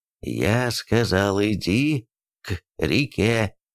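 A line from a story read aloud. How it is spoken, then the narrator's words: Clipped, emphatic. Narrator (Russian): отчеканил Тимуджин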